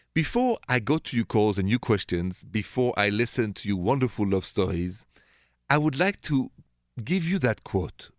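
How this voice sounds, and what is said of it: French accent. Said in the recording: “my accent is French, straight from Paris”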